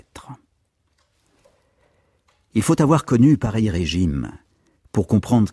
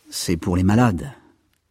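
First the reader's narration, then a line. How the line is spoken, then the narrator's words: Murmur. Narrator (French): murmura Kayertz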